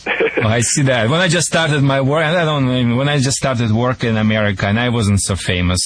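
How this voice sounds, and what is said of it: Non-native accent, mispronounces names. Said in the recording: “sorry for my accent. I sometimes mispronounce the names.”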